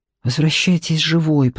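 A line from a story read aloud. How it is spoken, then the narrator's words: Whisper. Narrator (Russian): прошептал он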